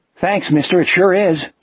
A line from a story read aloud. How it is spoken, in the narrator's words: Jack said cheerfully